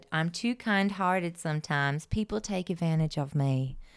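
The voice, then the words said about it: Imitates another person's voice with accent. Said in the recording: “I don't know where that accent is from”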